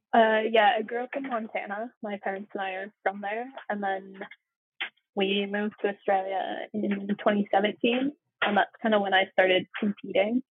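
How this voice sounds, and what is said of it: American accent. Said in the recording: “You also sound American.”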